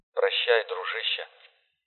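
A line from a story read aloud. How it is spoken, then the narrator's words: Mumbled. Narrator (Russian): пробормотал Абдулов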